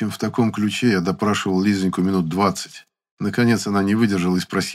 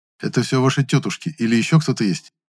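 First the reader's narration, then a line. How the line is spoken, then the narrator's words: Plain. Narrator (Russian): спросил я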